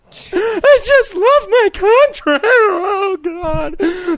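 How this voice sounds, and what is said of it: Imitates another person's voice. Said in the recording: “That's my Glenn Beck impression.”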